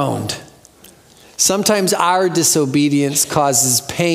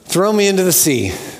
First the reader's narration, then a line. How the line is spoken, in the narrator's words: Jonah said